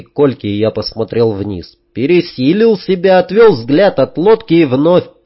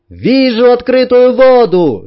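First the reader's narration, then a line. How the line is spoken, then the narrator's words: Cheerful shout. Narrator (Russian): весело крикнула Танюшка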